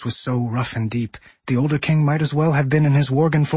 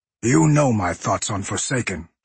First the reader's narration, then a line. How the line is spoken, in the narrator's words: Gen growled